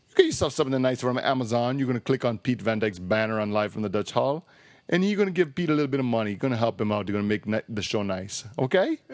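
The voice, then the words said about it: Put-on Italian accent. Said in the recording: “That was my Italian accent”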